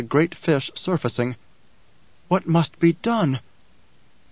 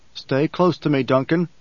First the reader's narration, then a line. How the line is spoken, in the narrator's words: Paul said